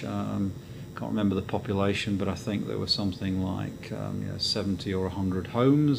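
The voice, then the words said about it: English Midlands accent. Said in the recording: “as you can probably tell by the accent, back in England. Very much in the Midlands.”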